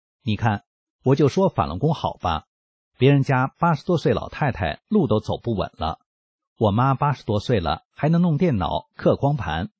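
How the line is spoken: Laughing. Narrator (Chinese): 儿子听了警察的话，笑出声来，对警察说道

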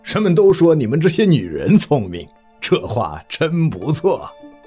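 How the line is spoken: Laughing heartily. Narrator (Chinese): 上师仰天哈哈大笑，一面说

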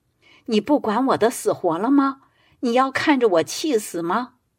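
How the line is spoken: Crying. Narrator (Chinese): 老伴一听又哭了起来，说

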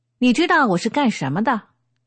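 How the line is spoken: Angry. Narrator (Chinese): 立即露出怒相，呼一下站起来说

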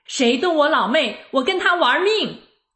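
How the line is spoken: Loud shout. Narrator (Chinese): 她大声喊

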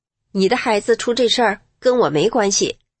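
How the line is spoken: Cold. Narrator (Chinese): 她却站在原地冷冷地说

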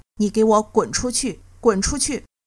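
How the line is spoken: Furious, harsh scolding. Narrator (Chinese): 吴彦杰气得厉声骂道

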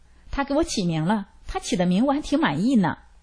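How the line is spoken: Laughing, carefree. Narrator (Chinese): 所长笑了，毫无顾虑地说道

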